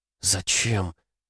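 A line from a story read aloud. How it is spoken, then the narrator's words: Lifeless whisper. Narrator (Russian): мертвым голосом прошептала Катя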